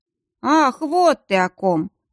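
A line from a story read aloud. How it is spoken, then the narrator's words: Drawled. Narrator (Russian): протянул Риден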